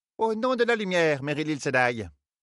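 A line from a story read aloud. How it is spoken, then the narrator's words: High-pitched tone. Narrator (French): dit-elle d'un ton haut perché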